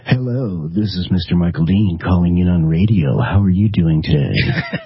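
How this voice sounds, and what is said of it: Put-on radio announcer voice. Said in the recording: “Trying out my radio voice. ... I think Ian just implied that your radio voice sounded a little gay.”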